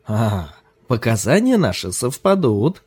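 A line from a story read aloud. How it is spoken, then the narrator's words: Laughing speech. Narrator (Russian): смеясь промолвил Ким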